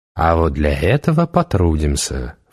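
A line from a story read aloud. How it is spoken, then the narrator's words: Insinuating witch. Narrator (Russian): вкрадчиво сказала ведьма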